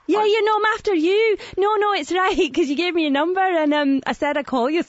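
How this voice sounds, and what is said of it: Scottish accent. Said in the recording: “Scottish ... you said I had a great accent”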